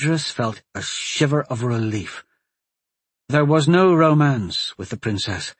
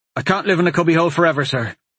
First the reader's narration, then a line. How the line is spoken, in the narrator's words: he blurted out